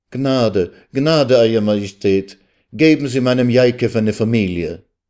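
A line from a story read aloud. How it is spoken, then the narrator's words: Heartfelt desperate cry. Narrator (German): Aus der Tiefe ihrer Seele rief sie zu dem Herrscher auf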